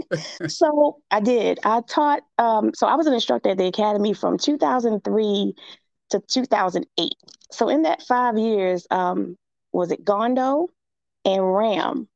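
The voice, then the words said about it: Scratchy, slightly hoarse voice. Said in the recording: “My voice is a little scratchy. I think I'm coming down with something.”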